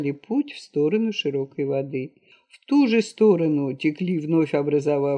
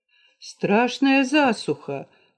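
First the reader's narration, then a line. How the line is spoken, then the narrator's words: Young hunter exclaiming. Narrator (Russian): воскликнул молодой охотник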